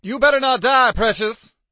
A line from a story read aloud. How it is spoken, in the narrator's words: she bellowed